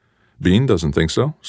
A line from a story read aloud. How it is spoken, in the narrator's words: said Ender